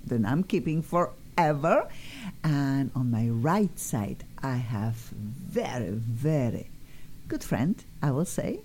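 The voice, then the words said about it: Polish accent. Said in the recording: “I am originally from Poland. Obvious, my accent is obvious. Cannot get rid of my accent.”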